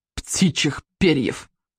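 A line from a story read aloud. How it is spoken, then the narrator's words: Snorted. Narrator (Russian): фыркнул Сморкало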